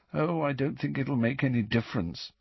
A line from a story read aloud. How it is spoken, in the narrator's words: said Neville still more miserably